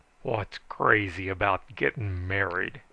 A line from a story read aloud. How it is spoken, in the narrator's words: he snarled